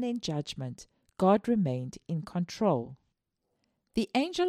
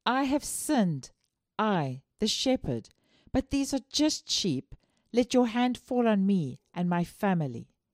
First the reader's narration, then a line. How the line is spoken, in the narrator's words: felt responsible for the suffering and cried out